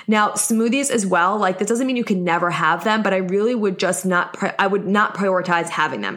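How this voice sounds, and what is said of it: New York accent. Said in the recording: “I'm in New York, if you couldn't tell by my accent”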